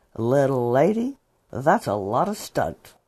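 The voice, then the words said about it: Imitation of John Wayne. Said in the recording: “my imitation of Yakima Canutt and John Wayne”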